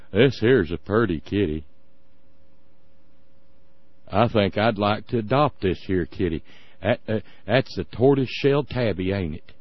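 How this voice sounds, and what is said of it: Exaggerated Tennessee Southern accent. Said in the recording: “he's from Tennessee, after all. Got to put on the stupid accent.”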